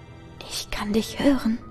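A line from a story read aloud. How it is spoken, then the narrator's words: Whispered. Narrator (German): flüstert die Stimme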